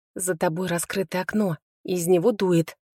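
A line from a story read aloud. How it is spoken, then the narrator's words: Whisper. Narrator (Russian): шепотом ответила я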